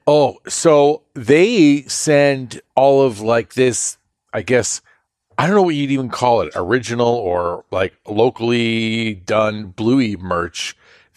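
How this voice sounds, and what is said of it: Australian accent. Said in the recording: “I'll send an Australian... kids are fascinated with the Australian accent”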